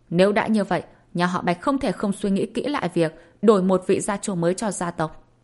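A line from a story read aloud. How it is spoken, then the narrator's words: Furious roaring shout. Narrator (Vietnamese): Bạch Vân Bằng đã cãi lại ông ta mới khiến cho ông ta càng giận hơn, quát ầm lên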